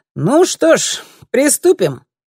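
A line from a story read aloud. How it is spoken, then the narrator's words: Cheerful. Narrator (Russian): бодро произнес Ларс Йоргенсен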